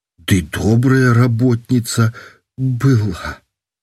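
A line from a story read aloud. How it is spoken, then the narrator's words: Sighing with a sob. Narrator (Belarusian): Уздыхнула с усхлипом зусім по-бабску медсестра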